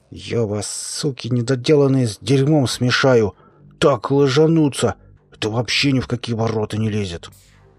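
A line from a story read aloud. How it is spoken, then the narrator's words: Through gritted teeth. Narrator (Russian): Боров процедил сквозь зубы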